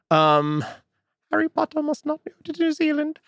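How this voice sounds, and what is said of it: Imitates a fictional creature's voice. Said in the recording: “good Hermione impression ... It was actually my Dobby impression.”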